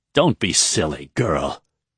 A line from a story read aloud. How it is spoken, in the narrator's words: spat the still nervous Edain